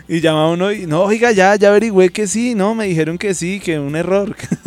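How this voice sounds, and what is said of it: Put-on foreign Spanish accents. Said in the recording (Spanish): “cómo me vieron con los acentos internacionales, ¿no? ... El peruano estuvo perfecto.”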